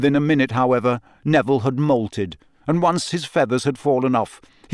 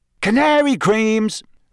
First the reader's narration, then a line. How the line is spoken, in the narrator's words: Fred shouted to the excitable crowd